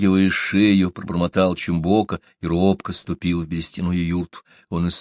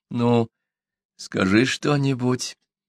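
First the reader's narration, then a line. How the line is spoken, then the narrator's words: Timid, hopeful, fearful plea. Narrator (Russian): робко попросила Одака, с надеждой и страхом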